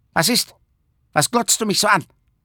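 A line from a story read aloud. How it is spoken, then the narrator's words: Calling. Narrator (German): rief es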